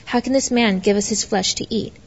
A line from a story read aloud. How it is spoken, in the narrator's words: the Jews began to argue sharply among themselves